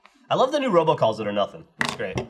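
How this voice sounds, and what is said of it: Sarcastic tone. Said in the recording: “I was being sarcastic.”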